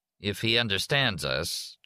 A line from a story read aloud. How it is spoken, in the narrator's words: Jack said dryly